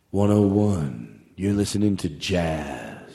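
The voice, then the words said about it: Jazz radio voice. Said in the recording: “Let me try that voice. This is my jazz voice.”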